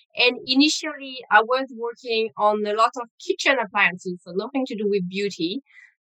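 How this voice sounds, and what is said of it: French accent. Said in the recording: “originally from France, you will pick up on the accent”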